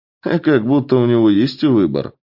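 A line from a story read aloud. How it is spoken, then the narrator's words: Young man's scoffing snort. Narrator (Russian): хмыкнул молодой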